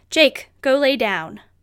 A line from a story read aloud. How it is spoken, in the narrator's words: spoke firmly